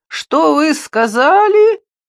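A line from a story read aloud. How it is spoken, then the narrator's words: Shouting. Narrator (Russian): прокричал человек в кресле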